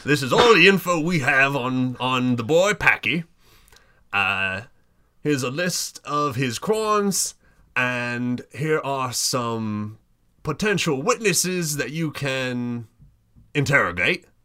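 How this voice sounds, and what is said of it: Character voice of Grubby. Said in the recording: “come up with what Grubby's letter is on the spot ... This way I get to do his voice. ... Yes, please do his voice again.”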